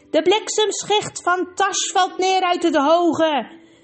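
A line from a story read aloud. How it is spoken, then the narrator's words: Called out while leaping. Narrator (Dutch): riep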